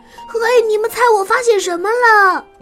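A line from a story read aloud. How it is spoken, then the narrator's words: Shouting. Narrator (Chinese): 他就大叫起来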